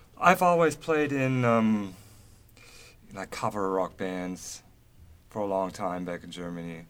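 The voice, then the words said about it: Slight German accent. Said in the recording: “Are you from Germany? ... I thought I detected a little bit of an accent”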